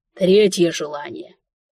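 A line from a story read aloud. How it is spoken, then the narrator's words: Stunned breathless monarch. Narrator (Russian): выдохнул огорошенный моими скромными требованиями монарх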